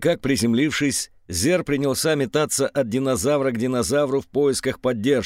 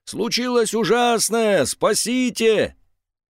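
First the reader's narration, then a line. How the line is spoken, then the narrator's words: Screaming. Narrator (Russian): Он вопил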